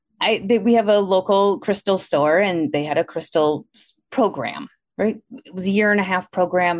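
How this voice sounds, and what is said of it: Milwaukee, Wisconsin accent. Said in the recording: “I live in Milwaukee, Wisconsin, hence my accent that you probably are all noticing.”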